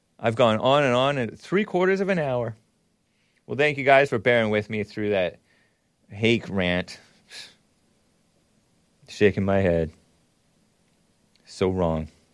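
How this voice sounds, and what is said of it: Imitates another person's voice. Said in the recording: “my Alex Jones placeboying impression”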